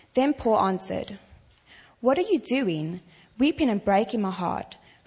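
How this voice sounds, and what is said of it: Speaks with a noticeable accent. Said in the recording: “Wish I had that accent. You would think I'm a lot smarter than I really am. Accents make you sound smarter.”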